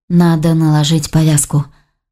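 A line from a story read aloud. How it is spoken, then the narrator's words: Sighing. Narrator (Russian): Саша вздохнула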